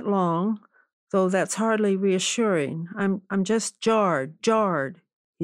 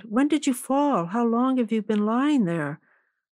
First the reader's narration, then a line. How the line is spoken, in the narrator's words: she exclaimed